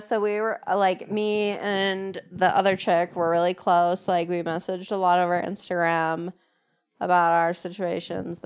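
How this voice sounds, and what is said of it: Vacant airheaded girl voice. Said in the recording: “Are you doing an impression of Ari right now? You sound like Ari. ... I was just doing a girl. ... Vacant. ... Some sort of vacant brain.”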